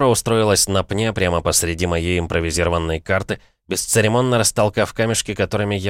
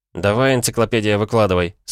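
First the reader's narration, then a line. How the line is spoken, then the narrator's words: Command. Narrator (Russian): скомандовал я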